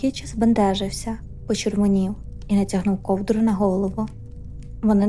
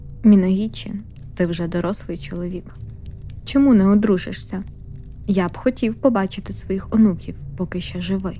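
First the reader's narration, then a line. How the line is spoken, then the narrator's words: Sighing, smiling. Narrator (Ukrainian): Він зітхнув і, посміхнувшись, сказав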